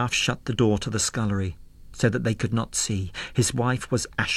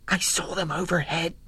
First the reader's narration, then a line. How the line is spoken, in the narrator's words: whispered